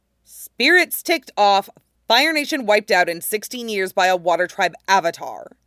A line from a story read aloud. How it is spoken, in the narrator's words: Toph snapped